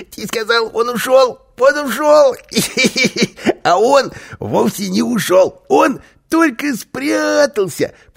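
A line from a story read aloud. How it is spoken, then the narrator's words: Squeaky voice. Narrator (Russian): пропищал Карлсон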